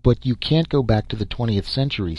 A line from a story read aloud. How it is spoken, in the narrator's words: said the box